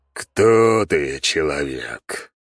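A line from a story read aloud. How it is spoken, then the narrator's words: Low growling voice. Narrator (Russian): слышу низкий рычащий голос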